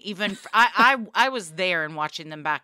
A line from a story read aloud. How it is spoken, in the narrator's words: I laughed